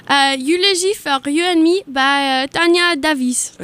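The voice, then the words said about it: Convincing put-on French accent. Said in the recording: “Your French accent is so good. ... I think it's a really good French accent, man. I'm impressed.”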